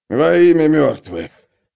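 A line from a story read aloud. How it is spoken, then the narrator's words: Hoarse wheeze. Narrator (Russian): просипел он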